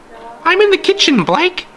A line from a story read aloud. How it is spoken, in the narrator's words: she shouted, her voice almost shrill